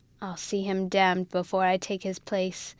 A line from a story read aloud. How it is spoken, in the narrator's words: growled out Rawdon